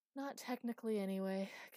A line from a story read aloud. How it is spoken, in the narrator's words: continued, almost on a sigh